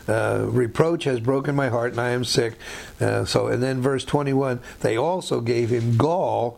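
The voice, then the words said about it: Raspy, strained voice. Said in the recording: “Sorry about my throat. I don't know why it's just raspy tonight.”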